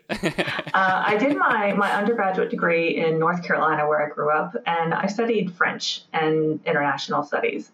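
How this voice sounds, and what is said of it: American accent. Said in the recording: “I have an American accent. I'm not faking it. It's real.”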